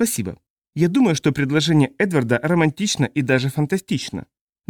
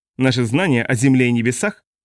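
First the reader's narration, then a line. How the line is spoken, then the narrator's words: Irritated. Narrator (Russian): ответил генерал раздраженно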